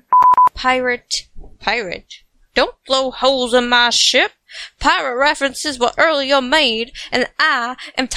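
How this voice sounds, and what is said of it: Put-on Southern woman's accent. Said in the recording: “talking like a southern woman”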